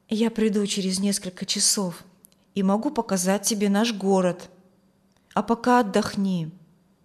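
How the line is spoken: Quiet. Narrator (Russian): тихо сказал

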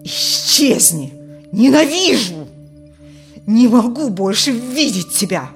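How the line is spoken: Furious loud hissed whisper. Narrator (Russian): прошипел Алексей, захлебнувшимся от гнева громким шепотом

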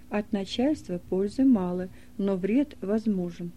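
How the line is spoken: Calm muttering. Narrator (Russian): спокойно, приговаривая

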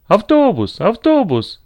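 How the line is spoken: Sudden joyful shout. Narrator (Russian): закричал вдруг Макс, от души радуясь этому простому решению возникшей вдруг проблемы

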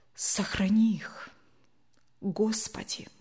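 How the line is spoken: Unconscious whisper. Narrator (Russian): совсем неосознанно прошептал Евгений

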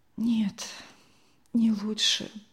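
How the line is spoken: Weak-voiced reply. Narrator (Russian): отозвалась она слабым голосом

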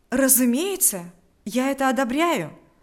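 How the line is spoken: Eager exclamation. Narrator (Russian): воскликнул с готовностью Павел

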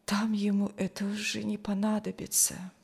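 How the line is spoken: Sigh. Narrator (Russian): вздохнул Никуша

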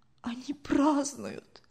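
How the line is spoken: Whisper. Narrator (Russian): прошептал Фиделис

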